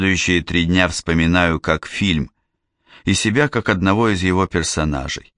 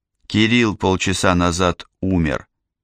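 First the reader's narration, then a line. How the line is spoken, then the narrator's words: Flat expressionless voice. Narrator (Russian): сказала она ничего не выражающим голосом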